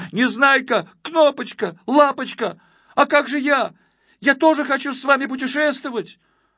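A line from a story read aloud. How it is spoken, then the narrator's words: Shouting. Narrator (Russian): Почкуля пестренький закричал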